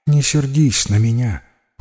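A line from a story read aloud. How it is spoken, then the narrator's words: Sigh. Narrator (Russian): вздохнула она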